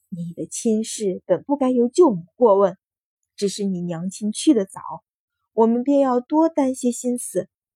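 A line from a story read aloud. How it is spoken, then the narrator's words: Relieved sigh. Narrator (Chinese): 汤氏才放下心来，叹道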